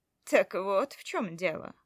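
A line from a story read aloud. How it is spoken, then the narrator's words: Wry snort. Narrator (Russian): хмыкнул он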